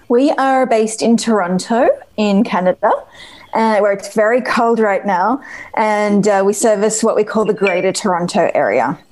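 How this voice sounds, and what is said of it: Australian accent. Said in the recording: “that is not a Canadian accent you're sporting there ... I am Australian”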